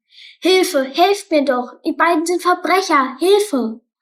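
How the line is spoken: Shouting as loud as possible. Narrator (German): rief so laut er konnte

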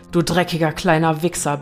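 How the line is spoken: Furious barking. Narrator (German): bellte Nadines Vater

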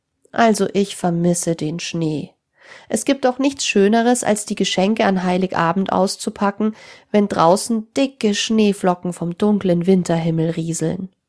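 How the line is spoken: Sad. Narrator (German): Sarah meinte traurig

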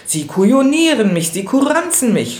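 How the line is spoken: Furious screaming. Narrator (German): schrie im Jähzorn

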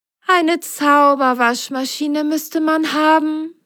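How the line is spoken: Sighed. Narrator (German): seufzte Merle

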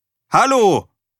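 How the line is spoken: Called a third time. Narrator (German): rief Erik ein drittes Mal

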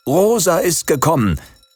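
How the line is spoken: Father calling out. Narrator (German): rief der Vater

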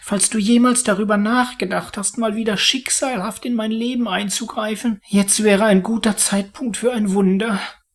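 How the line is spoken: Pleading. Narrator (German): flehte er

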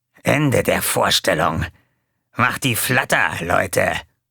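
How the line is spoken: Growled. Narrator (German): knurrte

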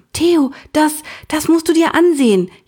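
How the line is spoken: Breathless gasp. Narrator (German): japste sie

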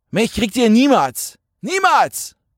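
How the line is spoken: Roaring. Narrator (German): brüllte Jan

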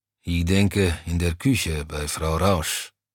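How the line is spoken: Grumbling. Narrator (German): brummte Browny

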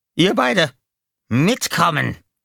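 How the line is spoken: Barked order. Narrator (German): bellte

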